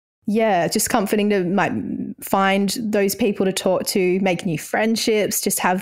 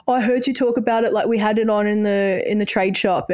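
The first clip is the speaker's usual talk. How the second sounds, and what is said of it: Put-on blokey male accent. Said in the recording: “the boy accent that you put”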